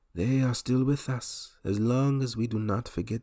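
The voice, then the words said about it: Imitated character accent, self-described as poor. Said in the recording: “I want to do the accent ... I'm going to butcher it”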